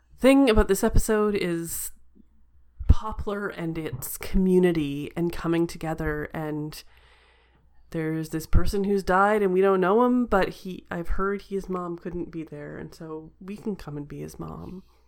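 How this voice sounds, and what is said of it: Choked-up, emotional voice. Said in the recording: “I'm uh, getting a little choked up.”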